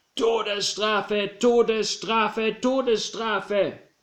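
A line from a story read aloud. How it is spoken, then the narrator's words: Crowd roaring. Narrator (German): Sie brüllten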